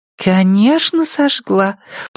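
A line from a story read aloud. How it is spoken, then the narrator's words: Purring. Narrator (Russian): промурлыкала Ирен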